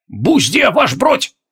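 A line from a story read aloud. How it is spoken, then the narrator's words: Old veterans barking in chorus. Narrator (Russian): Хором гаркнули седые ветераны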